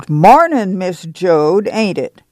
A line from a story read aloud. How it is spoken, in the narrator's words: the great woman boomed